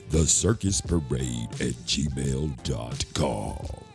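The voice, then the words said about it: Spooky dungeon voice. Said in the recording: “in my dungeon voice”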